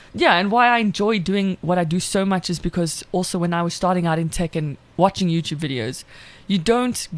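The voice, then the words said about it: South African accent, distinctive voice. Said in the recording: “my accent and my voice ... your voice is so amazing ... such a unique... ... the South African accent is like the number one most liked accent”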